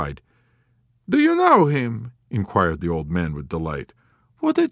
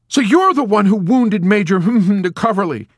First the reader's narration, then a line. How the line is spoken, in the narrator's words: he exclaimed in horrified indignation